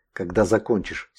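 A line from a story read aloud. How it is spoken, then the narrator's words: Suddenly stronger voice. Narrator (Russian): спросил целитель враз окрепшим голосом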